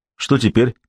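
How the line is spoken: Plain. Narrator (Russian): спросил он Гамаша

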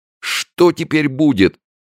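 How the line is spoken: Near-sobbing question. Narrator (Russian): чуть не с рыданием вопрошал

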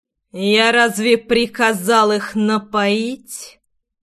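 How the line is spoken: Hissed through teeth. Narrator (Russian): процедил я

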